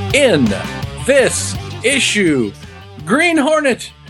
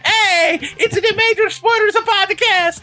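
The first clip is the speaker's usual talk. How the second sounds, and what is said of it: Imitates another person's voice. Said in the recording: “doing a vaguely racist imitation of him”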